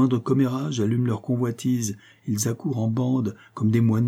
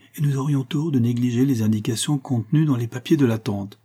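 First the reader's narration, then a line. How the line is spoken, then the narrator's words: Quick retort, younger brother. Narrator (French): répliqua vivement le cadet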